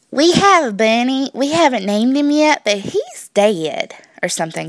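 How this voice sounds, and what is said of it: Fake sweet Southern accent. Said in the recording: “I sounded really, really southern ... I can fake a southern accent ... a little more sweet and southern”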